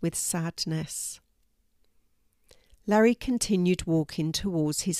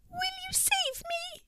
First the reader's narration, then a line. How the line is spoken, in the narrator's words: squeaked the mouse, all of a quiver